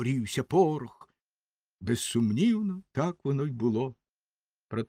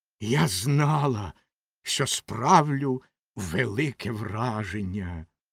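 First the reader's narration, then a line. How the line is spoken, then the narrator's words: Hissed. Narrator (Ukrainian): прошипіла Ракета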